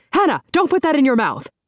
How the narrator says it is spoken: Pamela declares, then hollers

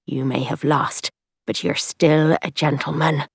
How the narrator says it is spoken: Tom said in a low, warning voice

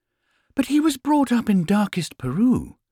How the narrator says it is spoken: exclaimed Mrs

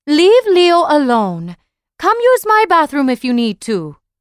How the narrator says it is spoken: Mama's voice called out

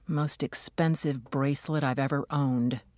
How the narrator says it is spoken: she muttered

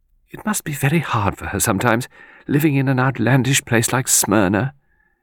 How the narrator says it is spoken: Miss Lawson sighed and said

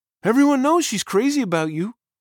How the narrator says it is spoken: Benji said, pitching his voice like a girl's

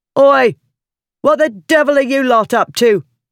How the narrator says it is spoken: the demanding shout reverberated

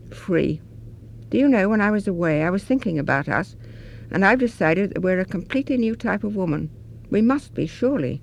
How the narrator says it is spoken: Molly said at last, sighing

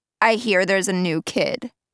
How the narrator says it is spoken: she says

